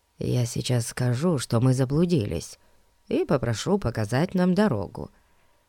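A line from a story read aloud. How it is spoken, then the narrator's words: Whisper. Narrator (Russian): шепнул друзьям Фати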